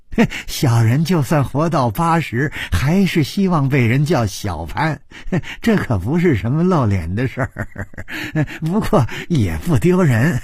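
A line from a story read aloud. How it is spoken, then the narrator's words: Smiling, cheerful. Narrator (Chinese): 小潘笑眯眯地说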